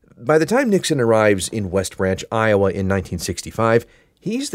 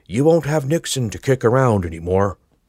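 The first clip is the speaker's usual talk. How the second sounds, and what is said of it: Poor Richard Nixon impression. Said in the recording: “Okay, that's not a good impression”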